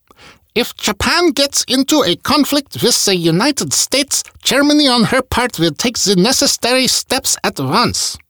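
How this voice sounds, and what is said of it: Bad German accent imitating Hitler. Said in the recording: “I gotta use a bad German accent when I'm quoting Hitler.”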